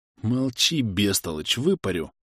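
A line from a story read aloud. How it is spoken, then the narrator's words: Annoyed hiss. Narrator (Russian): прошипел раздосадованный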